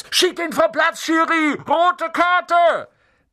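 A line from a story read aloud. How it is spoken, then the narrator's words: Shouting from the stands. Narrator (German): Unten auf den Rängen schrie Dean Thomas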